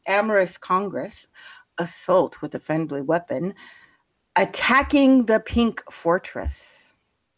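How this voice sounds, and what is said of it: Put-on sexy voice. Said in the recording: “I'm giving you my best sexy voice.”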